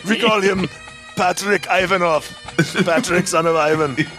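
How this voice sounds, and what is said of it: Austrian accent, Schwarzenegger impression. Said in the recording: “Somehow this has turned into an Austrian accent. I'm doing my Schwarzenegger.”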